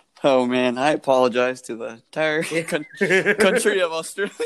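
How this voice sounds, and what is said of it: Usual voice. Nothing is said of it.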